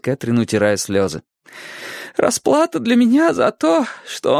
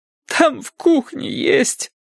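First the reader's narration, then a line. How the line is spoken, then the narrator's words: Muffled, forced out. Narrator (Russian): выдавила Кэтрин, заглушив эти слова бумажным полотенцем, прижатым к губам и щекам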